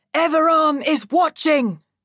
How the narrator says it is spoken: Chadan shouts

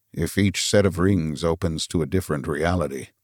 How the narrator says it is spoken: murmured Arthur

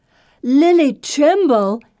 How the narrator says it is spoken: Anne exclaims through a mouthful of bread

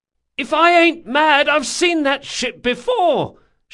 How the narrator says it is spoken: shouted the watchwoman

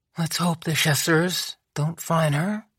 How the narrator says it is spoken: muttered

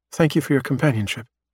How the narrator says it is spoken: Marnaka says

